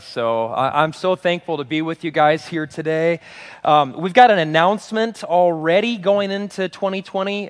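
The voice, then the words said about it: Sick-sounding, weak voice. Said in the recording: “If my voice gives out, it's because I've been sick for almost 2 weeks, and this is the best my voice has sounded.”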